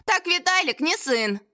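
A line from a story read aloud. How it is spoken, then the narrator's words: Cheerful reply. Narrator (Russian): радостно ответила консьержка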